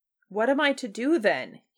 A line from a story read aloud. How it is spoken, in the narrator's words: he cried again